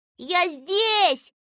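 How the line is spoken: Shouting. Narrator (Russian): кричал он

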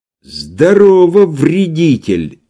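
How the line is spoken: Loud and spiteful. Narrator (Russian): злобно и громко ответил Иван

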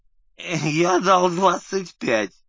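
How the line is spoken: Groan. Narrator (Russian): Лукашин повернулся и простонал

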